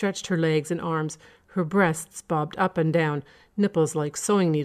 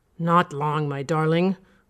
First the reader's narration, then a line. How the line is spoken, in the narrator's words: grunted, trying to keep his concentration from straying